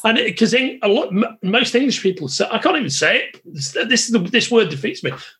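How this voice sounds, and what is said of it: Merseyside English accent. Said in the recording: “my Merseyside accent”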